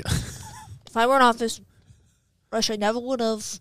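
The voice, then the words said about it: Donald Trump impression. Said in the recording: “I can't do an accent. ... That was good. Is that Ronald Reagan? ... No, it was supposed to be Donald Trump.”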